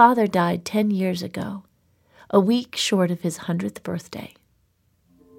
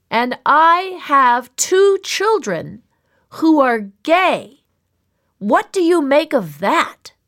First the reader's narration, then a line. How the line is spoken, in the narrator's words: all of them hard of hearing, him shouting